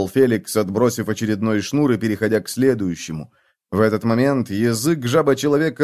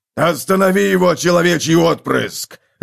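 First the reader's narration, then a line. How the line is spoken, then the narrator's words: Yelling. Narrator (Russian): завопил Готрек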